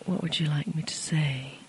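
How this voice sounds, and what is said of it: Sultry, seductive voice. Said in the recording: “speak in a sultry voice”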